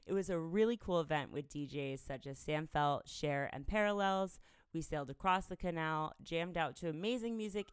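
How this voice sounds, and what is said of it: Slightly sore, strained voice. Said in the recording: “my voice is a little bit sore today. I was screaming and woohooing”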